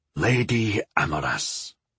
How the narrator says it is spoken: Zagor said, his voice hushed in reverence

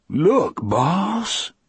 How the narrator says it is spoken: he cried in a low, rapturous voice

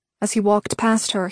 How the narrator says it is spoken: he whispered

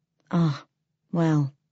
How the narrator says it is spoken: Father Andrew sighed

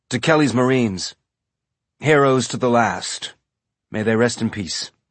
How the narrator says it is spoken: he said

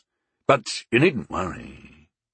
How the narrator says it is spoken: he said, in a low voice only I could overhear

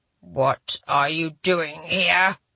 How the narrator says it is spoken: The now familiar growl sounded so abruptly

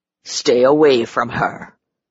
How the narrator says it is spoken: Behrens growled

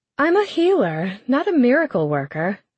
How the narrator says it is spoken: she said, her voice a melody

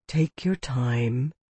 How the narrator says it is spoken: the healer urged, in a softer voice than the one he had used before

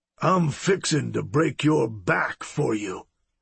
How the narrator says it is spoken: Brady threatened, his voice a low growl

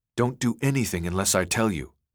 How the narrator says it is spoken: Lynch whispered

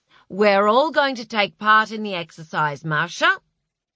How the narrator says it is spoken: he said loudly

